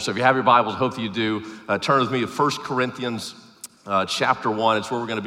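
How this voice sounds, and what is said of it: Southern Arkansas twang. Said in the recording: “I normally don't sound like this, by the way. I mean, the southern twang, yes, that's always present. You can't take the Arkansas out of me. ... I just have a tendency to get a cold”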